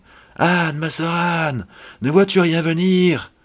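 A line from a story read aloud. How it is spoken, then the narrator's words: Distressed woman calling out. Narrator (French): la pauvre affligée lui criait de temps en temps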